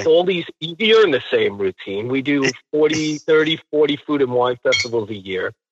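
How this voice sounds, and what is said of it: New York accent. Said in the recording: “there's that New York accent that I miss so much.”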